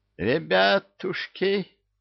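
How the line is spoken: Terrified wheeze. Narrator (Russian): засипел насмерть перепуганный Кощей

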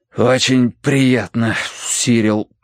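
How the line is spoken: Breathless exhale. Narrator (Russian): выдохнул я

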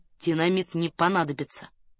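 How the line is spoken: Quiet speech. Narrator (Russian): тихо сказал Раст Петрович

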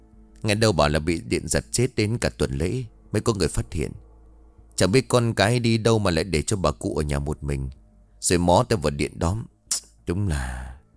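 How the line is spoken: Lip smack, continuing. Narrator (Vietnamese): Khẽ chấp miệng một cái, Kiên lại tiếp

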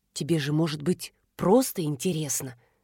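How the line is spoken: Insinuating thin inner whisper. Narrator (Russian): вкрадчиво шептал тоненький голос внутри головы

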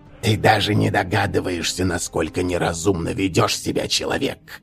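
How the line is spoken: Demonic hiss. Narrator (Russian): прошипел демон

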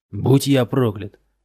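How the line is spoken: Barked. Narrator (Russian): рявкнул Йеман

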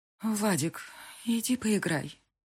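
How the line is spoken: Straining through tears. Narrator (Russian): силюсь произнести сквозь слезы

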